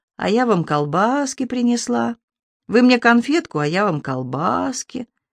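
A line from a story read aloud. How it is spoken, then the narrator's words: Drawling, syrupy voice. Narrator (Russian): Инна тянула елейным голосом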